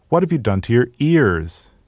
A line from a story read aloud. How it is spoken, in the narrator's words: cried